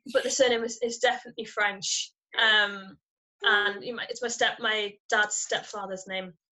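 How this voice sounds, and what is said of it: Northern English accent. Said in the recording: “hear my northern accent.”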